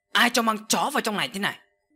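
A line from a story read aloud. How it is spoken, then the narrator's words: Sudden loud shout. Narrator (Vietnamese): chợt bà ta quát lớn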